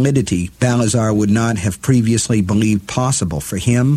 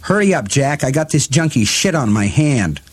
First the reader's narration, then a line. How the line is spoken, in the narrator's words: Claudio yelled angrily